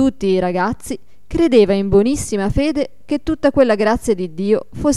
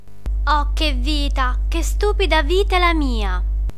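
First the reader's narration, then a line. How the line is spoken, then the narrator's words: Muttering, whiny tragic queen. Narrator (Italian): borbottava fra sé con la voce da piagnisteo d'una regina da tragedia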